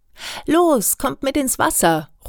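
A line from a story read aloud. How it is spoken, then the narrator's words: Calling out. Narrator (German): ruft Jan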